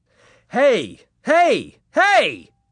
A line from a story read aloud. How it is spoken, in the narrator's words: I shouted